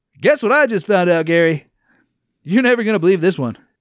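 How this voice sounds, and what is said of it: Exaggerated radio host voice. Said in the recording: “that fucking radio voice”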